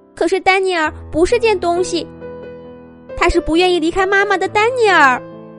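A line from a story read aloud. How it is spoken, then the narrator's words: Tearful voice. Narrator (Chinese): 婷婷带着哭腔说道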